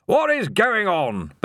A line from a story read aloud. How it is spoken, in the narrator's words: bellowed Ridcully